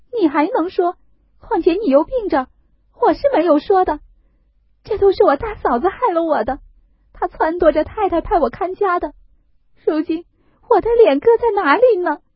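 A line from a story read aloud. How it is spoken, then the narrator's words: Bitter weeping. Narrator (Chinese): 说着又痛哭起来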